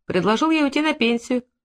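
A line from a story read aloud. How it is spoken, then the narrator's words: Chuckling. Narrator (Russian): хохотнул Федулеев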